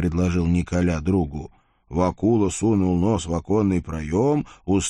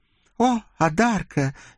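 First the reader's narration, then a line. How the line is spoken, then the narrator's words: Amazed exclamation, cheerful woman. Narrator (Russian): изумленно воскликнула веселая красавица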